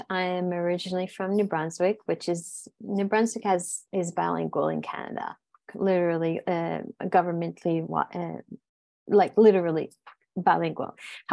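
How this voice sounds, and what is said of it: French Canadian accent. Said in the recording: “they are detecting an accent from you ... where I come from is fully French”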